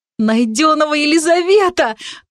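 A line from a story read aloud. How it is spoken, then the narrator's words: Happy exclamation. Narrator (Russian): воскликнула я счастливо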